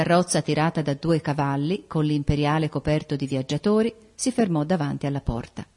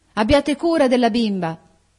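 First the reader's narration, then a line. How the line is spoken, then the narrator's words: Woman shouting. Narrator (Italian): gridò ella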